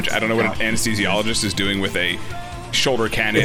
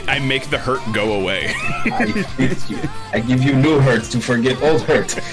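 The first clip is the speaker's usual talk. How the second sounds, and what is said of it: Bad put-on Russian accent. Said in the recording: “I develop a terrible Russian accent”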